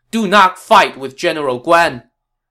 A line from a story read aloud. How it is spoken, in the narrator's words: a rider flew onto the scene, shouting